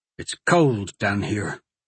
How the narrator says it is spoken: he grumbled

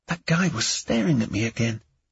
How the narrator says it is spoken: Laura whispered in my ear

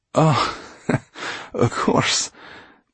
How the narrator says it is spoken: Dustfinger laughed softly

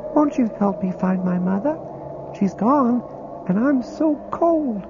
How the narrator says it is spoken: she said in a high, clear voice as sweet as morning mist

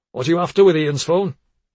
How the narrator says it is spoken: he said sharply

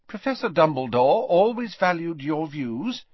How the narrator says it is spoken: said Professor McGonagall kindly

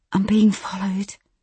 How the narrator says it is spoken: she whispered

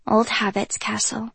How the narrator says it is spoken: I said quietly

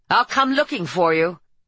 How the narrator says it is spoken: Harper shouted at him

